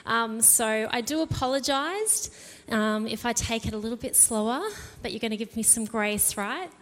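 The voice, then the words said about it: Slightly out of breath. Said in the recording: “if I sound like I'm a little bit out of breath this morning”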